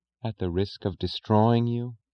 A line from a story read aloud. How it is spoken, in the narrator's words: whispered